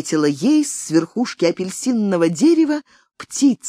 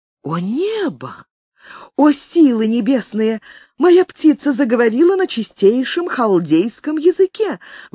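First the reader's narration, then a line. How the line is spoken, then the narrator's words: Princess exclaiming. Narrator (Russian): воскликнула царевна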